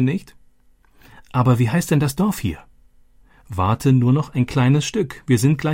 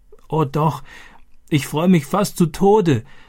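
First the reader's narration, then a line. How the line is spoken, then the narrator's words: Gasping, laughing and crying. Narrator (German): japste sie und lachte und weinte gleichzeitig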